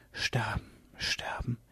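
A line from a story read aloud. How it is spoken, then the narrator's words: Whispered. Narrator (German): flüsterte Myga van Bergen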